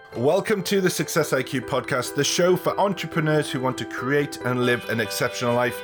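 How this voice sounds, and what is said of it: Croaky, slightly hoarse voice. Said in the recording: “if I'm sounding a little bit croaky today, or my voice sounds a little bit different”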